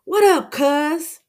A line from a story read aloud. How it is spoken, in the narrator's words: Shaquem yells back as they both laugh